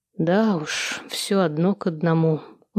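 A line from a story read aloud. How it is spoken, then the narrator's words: Dejected tone. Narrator (Russian): удрученным тоном произнес Владислав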